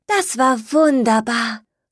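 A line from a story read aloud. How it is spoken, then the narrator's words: Happy sigh, small creature. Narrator (German): seufzte das kleine Stinktier glücklich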